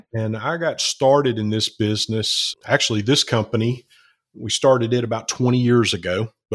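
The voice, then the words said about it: Southern US accent. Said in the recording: “being a good old Southern boy... Alabama... I'm sure you can pick up my Queen's English accent.”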